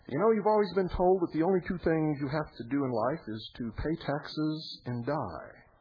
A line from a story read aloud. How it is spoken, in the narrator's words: One exclaimed